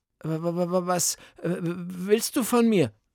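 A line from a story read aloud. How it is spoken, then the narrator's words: Stuttering. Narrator (German): stottert Beethoven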